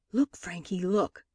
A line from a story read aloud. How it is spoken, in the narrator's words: whispered